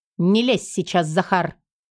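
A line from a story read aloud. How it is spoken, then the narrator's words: Short growl. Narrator (Russian): рыкнула коротко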